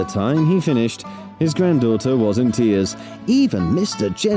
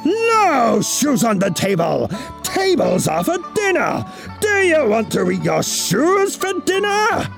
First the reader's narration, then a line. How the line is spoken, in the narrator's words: he roared